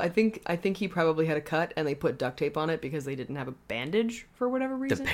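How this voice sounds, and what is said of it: Usual voice. Nothing is said of it.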